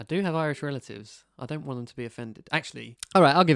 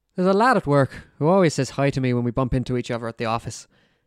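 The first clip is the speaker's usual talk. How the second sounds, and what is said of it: Put-on Irish accent. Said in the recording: “maybe you should do Irish ... I'll give Irish a go”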